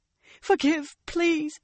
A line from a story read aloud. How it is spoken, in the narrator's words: she begged, as she babbled